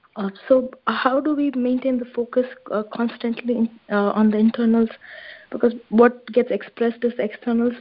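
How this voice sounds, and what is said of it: Hoarse, strained voice. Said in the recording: “Sorry, I'm having a sore throat. My voice is bad.”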